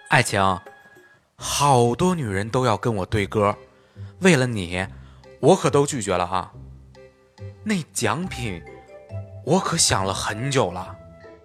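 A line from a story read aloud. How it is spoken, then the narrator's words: Heavy sigh. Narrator (Chinese): 他重重叹气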